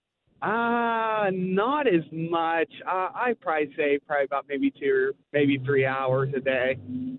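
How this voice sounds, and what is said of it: Pennsylvanian-sounding American accent. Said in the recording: “I can tell you're from Pennsylvania ... I hear a Pennsylvanian accent”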